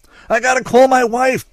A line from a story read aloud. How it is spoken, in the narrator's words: Dortmunder yelled, but everybody else was yelling too, so nobody could hear anybody